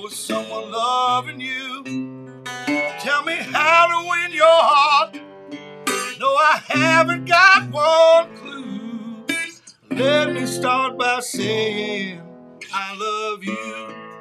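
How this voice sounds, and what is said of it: Slightly cracking singing voice. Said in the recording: “the voice is cracking... My voice is cracking a little bit”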